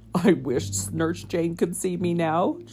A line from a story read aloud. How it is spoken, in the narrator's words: chuckled the bunny gentleman